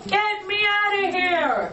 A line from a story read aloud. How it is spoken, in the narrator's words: yelled